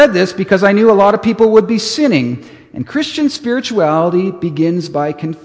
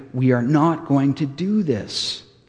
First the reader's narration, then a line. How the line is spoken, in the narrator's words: I said very gently